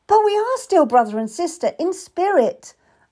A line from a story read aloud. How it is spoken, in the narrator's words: I cried, afraid I would lose him again